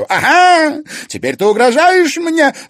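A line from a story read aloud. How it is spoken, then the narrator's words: Yelling. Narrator (Russian): завопила Анфиса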